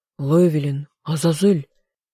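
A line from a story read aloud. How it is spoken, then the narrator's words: Hoarse. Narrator (Russian): хрипло произнес мой друг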